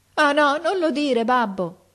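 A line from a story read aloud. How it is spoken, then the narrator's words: Son shouting, bursting into tears. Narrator (Italian): gridò il figliuolo scoppiando in pianto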